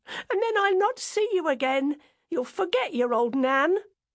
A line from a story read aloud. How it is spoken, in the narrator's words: cried